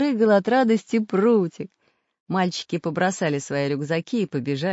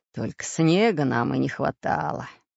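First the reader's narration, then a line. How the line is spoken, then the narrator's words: Grumbling pirate. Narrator (Russian): заворчал пират Буль-Буль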